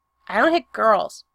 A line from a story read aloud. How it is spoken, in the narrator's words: Patrick said stiffly